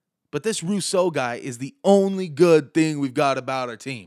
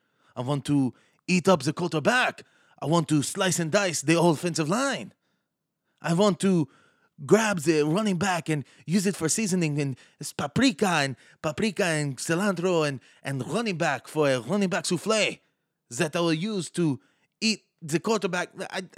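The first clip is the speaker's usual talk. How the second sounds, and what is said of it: Put-on French accent. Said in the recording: “great French impression.”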